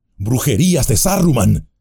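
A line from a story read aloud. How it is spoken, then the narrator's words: Exclaiming. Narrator (Spanish): exclamó Aragorn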